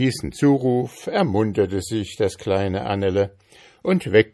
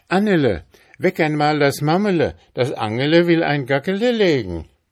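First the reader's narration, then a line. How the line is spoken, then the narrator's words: Calling over to child. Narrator (German): rief sie zu dem kleinen Kinde hinüber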